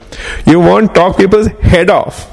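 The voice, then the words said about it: Put-on accent. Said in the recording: “I'm going to use an accent now.”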